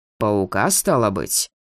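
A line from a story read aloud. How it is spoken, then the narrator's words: Snorting. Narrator (Russian): Маркус хмыкнул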